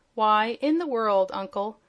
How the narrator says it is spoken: answered Zeb with a laugh

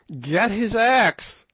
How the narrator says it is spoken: yelled Good

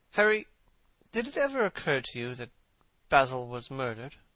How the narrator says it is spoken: Lord Henry yawned

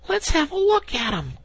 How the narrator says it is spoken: cried the rat

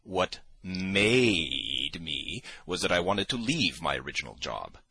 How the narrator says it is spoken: I drawled more than he, hardly able to control myself

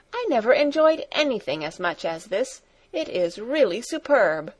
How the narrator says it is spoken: cried Grandmamma two or three times over

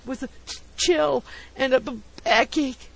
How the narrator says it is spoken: he gasped

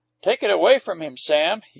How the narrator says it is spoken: he commanded sharply

